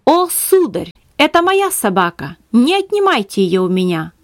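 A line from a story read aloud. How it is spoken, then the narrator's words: Exclaimed. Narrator (Russian): Она воскликнула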